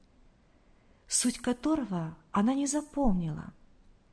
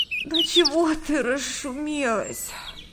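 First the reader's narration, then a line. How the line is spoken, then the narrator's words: Grumbling. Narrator (Russian): проворчала Света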